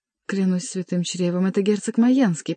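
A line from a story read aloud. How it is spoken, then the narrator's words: Ecstatic whisper. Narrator (Russian): прошептал Шико в экстазе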